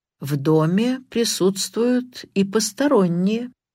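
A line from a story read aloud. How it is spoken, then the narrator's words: Slow. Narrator (Russian): медленно произнес Карри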